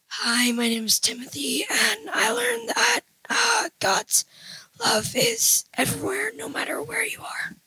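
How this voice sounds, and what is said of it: Raspy voice. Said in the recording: “we got some raspy voices up in here”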